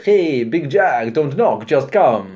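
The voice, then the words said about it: Vague foreign accent, slightly Russian. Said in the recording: “the amusing foreign accent that Robin Williams used to do, which was kind of indeterminate of where it was from ... I sounded a bit Russian then”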